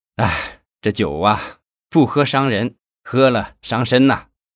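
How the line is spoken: Sighing, half-joking. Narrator (Chinese): 他叹了口气，半开玩笑地说

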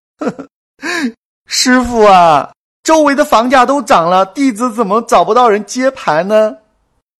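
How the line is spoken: Crying. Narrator (Chinese): 弟子哭着说

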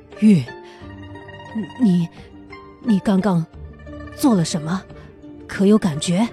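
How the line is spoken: Trembling voice. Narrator (Chinese): 他颤声道

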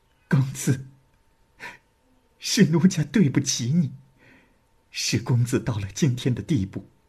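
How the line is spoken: Sobbing bitterly. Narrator (Chinese): 李娃失声痛哭的说

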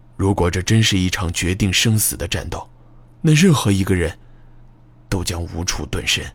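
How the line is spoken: Hushed voice. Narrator (Chinese): 木武压低了声音

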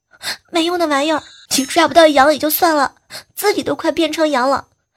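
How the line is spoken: Wailing loudly. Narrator (Chinese): 红太狼 大哭

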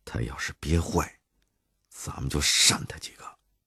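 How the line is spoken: Lowered voice. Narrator (Chinese): 傅三儿压低了声音

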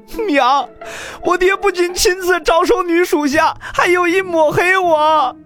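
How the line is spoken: Crying out while running. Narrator (Chinese): 洛尘……一边哭喊道

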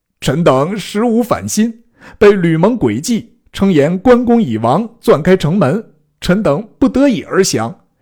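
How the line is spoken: Weeping plea. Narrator (Chinese): 哭告于前曰

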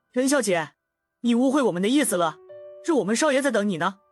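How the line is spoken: Smiling. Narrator (Chinese): 领头的人笑了笑说

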